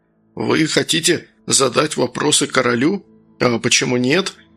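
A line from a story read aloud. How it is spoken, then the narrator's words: Calm reply. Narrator (Russian): спокойно ответил Сергей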